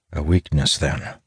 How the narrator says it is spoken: I mutter, my frown deepening

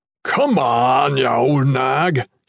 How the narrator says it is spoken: Hubert shouted

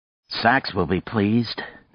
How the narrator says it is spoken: Nadia said grimly

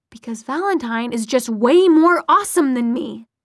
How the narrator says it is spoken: snapped Magnus

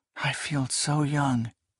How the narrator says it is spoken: She sighed and said

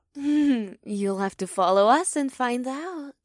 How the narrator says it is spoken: the second twin giggled

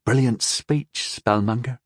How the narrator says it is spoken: she murmured

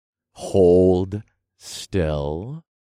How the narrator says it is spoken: I growled

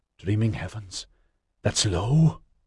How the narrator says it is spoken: gasped

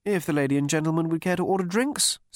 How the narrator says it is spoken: said, hovering impatiently

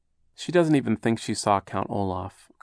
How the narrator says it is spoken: Klaus agreed sadly

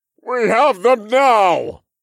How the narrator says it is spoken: The elder named Aeron bellowed with satisfaction

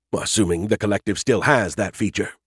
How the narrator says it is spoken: he muttered to himself

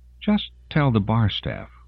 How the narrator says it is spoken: Rosalind said urgently

